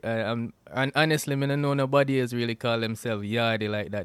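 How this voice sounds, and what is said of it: Jamaican accent. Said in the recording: “from you hear my accent already, you could have tell, say, yo, straight out of Jamaica me come from”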